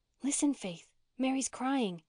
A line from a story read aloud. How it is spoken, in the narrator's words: she whispered